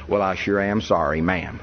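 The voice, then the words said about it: Broad Southern American accent. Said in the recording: “my pure Southern”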